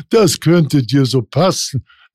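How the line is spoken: Laughing. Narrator (German): lachte Hans

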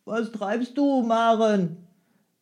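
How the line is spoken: Sleepy call. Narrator (German): rief er mit schläfriger Stimme

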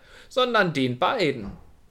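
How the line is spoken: Cawing crow. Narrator (German): krächzte die Krähe

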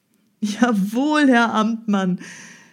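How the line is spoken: Hunter answering joyfully. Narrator (German): antwortete der Jäger mit freudiger Stimme

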